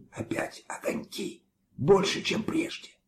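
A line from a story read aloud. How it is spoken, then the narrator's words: Loud whisper. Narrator (Russian): Дори громко шепнул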